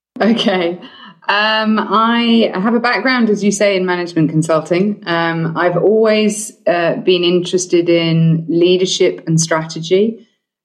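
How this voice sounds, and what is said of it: British accent. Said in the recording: “the British accent is just so engaging”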